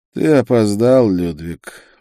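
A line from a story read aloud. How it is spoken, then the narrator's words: Weary. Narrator (Russian): устало сказал он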